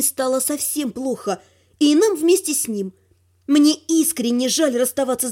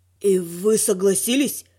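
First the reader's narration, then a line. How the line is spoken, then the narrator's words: Wheezy dragon voice. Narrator (Russian): просипел дракон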